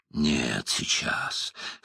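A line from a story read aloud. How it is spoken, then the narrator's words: Hoarse, breathless demand. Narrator (Russian): хрипло дыша потребовал он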